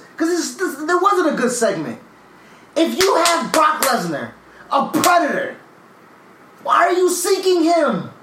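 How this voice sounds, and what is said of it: Raised, loud angry voice. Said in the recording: “raising my voice. I'm raising my fucking voice.”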